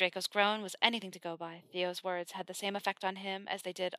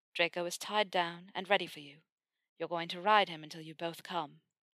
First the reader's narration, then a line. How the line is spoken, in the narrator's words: he purred